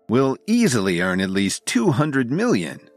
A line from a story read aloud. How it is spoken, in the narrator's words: Oliver said happily